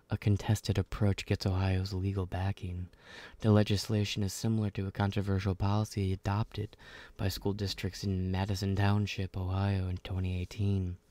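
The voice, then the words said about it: Mock public-radio announcer voice. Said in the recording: “in this NPR voice ... I sound like the Halloween Haunter”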